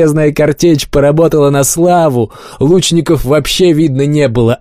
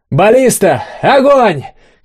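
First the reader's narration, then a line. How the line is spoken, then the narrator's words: Shout. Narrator (Russian): крикнул Олег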